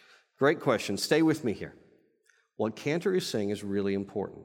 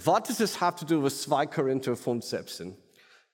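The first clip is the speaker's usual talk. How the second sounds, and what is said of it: Put-on German accent. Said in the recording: “In your German theologian accent”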